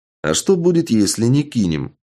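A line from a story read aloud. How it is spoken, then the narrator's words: Calm question. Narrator (Russian): спокойно поинтересовался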